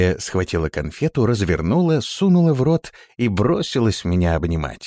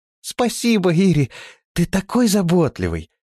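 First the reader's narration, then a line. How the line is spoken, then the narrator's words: Exclaimed. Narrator (Russian): воскликнула она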